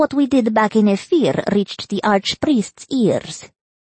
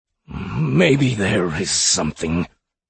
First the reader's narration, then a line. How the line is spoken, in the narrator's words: he mumbled